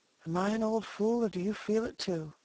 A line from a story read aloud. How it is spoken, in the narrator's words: she half whispered